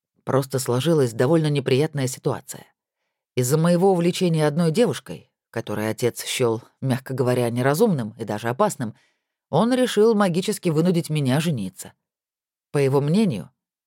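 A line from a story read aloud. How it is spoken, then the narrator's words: Grim smirk. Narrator (Russian): мрачно усмехнулся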